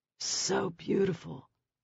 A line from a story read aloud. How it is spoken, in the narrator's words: murmured